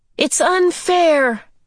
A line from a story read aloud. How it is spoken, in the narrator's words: he shouted at the man